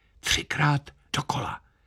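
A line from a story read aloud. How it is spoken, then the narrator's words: Bandmaster whispering. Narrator (Czech): Kapelník šeptl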